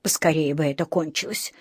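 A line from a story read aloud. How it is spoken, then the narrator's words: Sigh. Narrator (Russian): вздохнула миссис Браун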